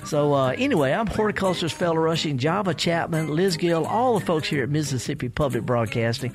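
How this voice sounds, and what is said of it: Southern country accent. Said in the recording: “we sound country, we sound southern because we are southern”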